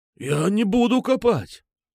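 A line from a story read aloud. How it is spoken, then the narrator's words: Hoarse rasp. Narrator (Russian): прохрипел Петрушка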